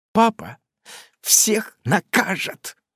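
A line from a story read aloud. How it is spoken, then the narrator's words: Snorting through tears. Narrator (Russian): фырчит сквозь слезы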